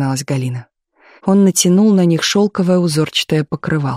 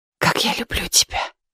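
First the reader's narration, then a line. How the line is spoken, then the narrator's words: Near whisper. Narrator (Russian): почти шепотом сказал Ковров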